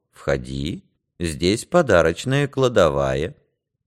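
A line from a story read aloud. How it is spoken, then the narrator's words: Purring. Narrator (Russian): промурлыкал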